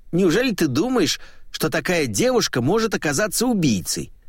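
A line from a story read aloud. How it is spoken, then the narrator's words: Snapped. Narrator (Russian): огрызнулся Иван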